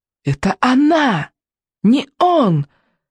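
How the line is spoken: Shout muffled by helmet. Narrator (Russian): крикнул в ответ Икинг, но сквозь шлем донеслось лишь

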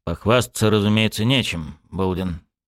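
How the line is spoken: Officer muttering through teeth. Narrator (Russian): процедил майор

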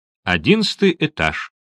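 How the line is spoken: Plain. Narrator (Russian): сказала

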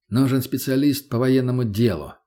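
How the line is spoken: Plain. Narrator (Russian): ответил я

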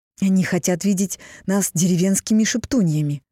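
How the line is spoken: Exasperated exclamation. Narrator (Russian): в сердцах воскликнула Дагни

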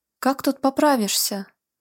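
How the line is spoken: Whiny grumbling tone. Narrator (Russian): жалобно-сварливым тоном произнес Гвидо

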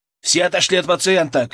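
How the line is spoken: Shout. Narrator (Russian): крикнул я

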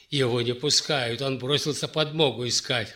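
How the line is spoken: Chuckling. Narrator (Russian): хохотнул воевода

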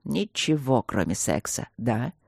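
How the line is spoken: Mocking mutter. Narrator (Russian): с насмешкой пробормотал барон

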